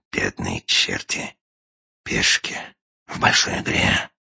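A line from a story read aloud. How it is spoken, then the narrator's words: Sighing whisper. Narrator (Russian): со вздохом прошептал агент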